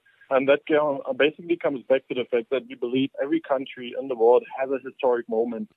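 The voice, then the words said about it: German accent. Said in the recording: “as you can hear by my accent, I'm from Germany and from Berlin”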